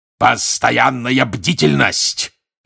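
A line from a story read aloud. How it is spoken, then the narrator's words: Barked. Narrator (Russian): рявкнул он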